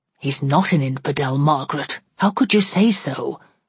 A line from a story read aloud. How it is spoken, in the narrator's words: muttered he reproachfully